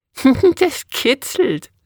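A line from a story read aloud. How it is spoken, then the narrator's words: Laughing. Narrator (German): lachte sie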